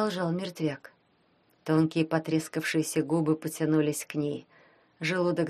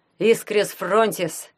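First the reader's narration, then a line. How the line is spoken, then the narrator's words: Shout. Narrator (Russian): крикнул Ванька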